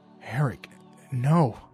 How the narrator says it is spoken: I felt myself say under my breath

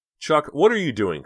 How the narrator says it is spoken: cried Dina

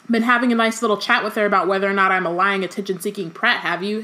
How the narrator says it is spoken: Harry said loudly

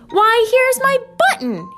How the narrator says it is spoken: cried

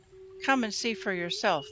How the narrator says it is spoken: Philip replied

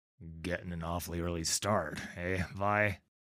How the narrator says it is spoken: He grumbles, pawing sleep from his eyes

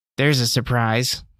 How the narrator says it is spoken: she said with a groan of exertion

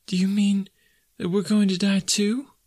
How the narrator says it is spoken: asked the child, checking her sobs and raising her tear-stained face

